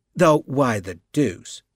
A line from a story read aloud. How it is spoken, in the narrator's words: Benton continued in the same steady tone